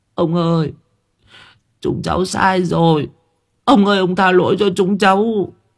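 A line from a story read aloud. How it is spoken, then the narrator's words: Frightened tearful whimpering. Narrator (Vietnamese): Bọn thằng Đại cứ nghĩ là ông chủ ruộng ngô không tha, bắt đầu mếu máo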